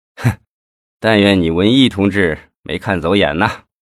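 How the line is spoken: Cold sneer. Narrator (Chinese): 李先法一听，冷笑了一声

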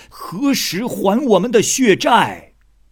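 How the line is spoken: Roaring furious shouting. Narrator (Chinese): 畜生们就咆哮大怒，都大叫着

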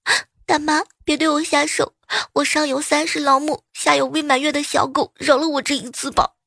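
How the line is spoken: Child crying. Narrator (Chinese): 小孩突然回头对我哭

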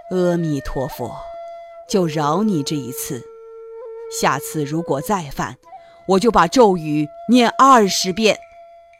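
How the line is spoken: Sighing. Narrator (Chinese): 唐僧叹了一口气说

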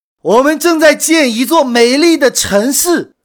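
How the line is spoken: Cheerful, beaming. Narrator (Chinese): 第三个人笑容满面

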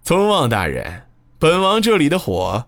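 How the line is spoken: Smiling, joking. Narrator (Chinese): 他面带微笑，开起玩笑

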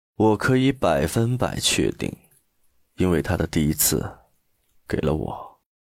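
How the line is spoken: Cold. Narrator (Chinese): 陆漠北又冷冷的开口了

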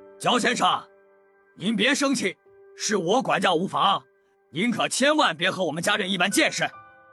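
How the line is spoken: Ingratiating, placating. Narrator (Chinese): 李普 一脸陪笑的对焦阳说

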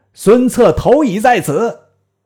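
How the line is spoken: Soldiers shouting loudly. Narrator (Chinese): 太史慈亦令军士大叫曰

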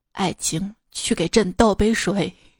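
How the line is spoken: Deep regal voice. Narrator (Chinese): 他爸……做出一副王者姿态，沉声道

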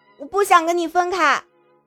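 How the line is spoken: Loud shout. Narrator (Chinese): 再大喊一声

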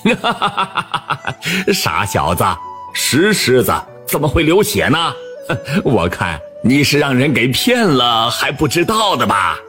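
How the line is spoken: Mocking laughter. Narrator (Chinese): 王二听后哈哈大笑起来

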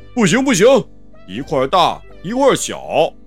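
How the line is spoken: Hurried cry. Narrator (Chinese): 连忙叫起来

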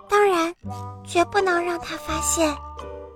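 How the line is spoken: Quiet mumble. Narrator (Chinese): 劳拉小声的嘟囔

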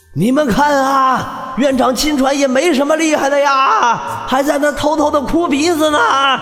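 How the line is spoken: Old man chuckling, shouting. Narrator (Chinese): 那老者嘿嘿一笑，一边飞一边喊着

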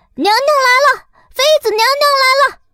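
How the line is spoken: Parrot calling out. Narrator (Chinese): 鹦鹉闻声又叫道

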